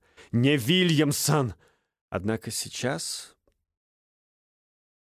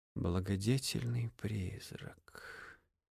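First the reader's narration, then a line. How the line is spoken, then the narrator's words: Muttered. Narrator (Russian): пробормотал он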